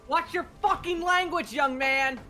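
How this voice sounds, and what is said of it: Yelling angrily. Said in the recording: “you're yelling”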